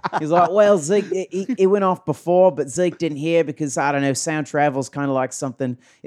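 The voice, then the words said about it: Put-on Australian accent. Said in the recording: “I'm going to go with the Richie Porta Aussie accent”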